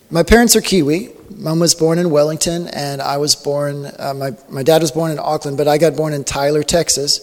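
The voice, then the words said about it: American accent. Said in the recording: “I was born in Texas, so the accent comes from America”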